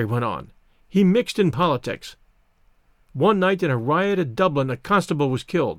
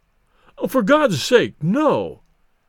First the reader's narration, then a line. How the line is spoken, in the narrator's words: pleaded Bates